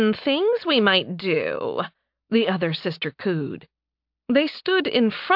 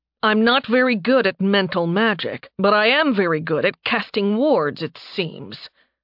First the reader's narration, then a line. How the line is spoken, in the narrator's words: he growled